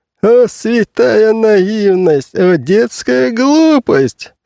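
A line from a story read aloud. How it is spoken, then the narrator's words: Laughing uncle. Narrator (Russian): смеялся дядя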